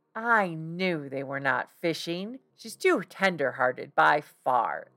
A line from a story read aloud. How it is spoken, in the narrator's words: exclaimed Jack with a lover's pride